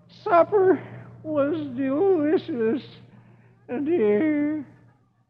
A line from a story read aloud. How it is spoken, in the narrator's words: And Dagwood groans